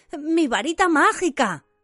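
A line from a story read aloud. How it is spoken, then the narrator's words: Trembling voice. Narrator (Spanish): dijo Ron con voz temblorosa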